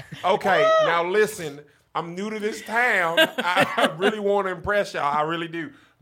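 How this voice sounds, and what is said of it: Put-on Tennessee Southern accent. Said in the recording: “stuck in an accent out of fear? ... Tennessee”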